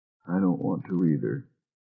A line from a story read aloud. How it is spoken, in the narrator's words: His wife muttered